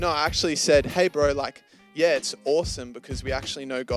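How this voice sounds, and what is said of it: Usual voice. Nothing is said of it.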